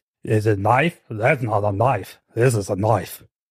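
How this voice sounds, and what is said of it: Poor put-on Australian accent. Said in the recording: “Your Australian accent is terrible. It's worse than mine. ... That is not an Australian accent at all.”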